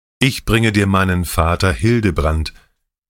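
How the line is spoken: Plain. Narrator (German): sagte Hadubrand

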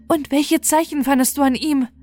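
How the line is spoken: Calling out. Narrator (German): rief sie

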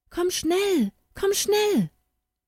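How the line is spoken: Calling out. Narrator (German): eine Stimme rief

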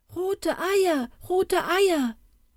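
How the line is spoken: Called out. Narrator (German): rief das eine

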